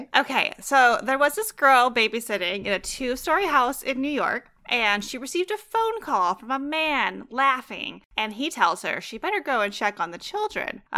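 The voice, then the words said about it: Imitates a teenage girl's voice. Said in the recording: “Can you do a 14-year-old girl accent? ... Let me try, but it might be really annoying.”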